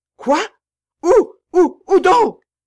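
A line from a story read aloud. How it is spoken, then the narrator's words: Distraught cry. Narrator (French): s'écria-t-elle tout égarée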